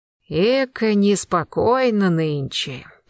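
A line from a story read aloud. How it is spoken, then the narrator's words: Drawling. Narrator (Russian): протянул Архипка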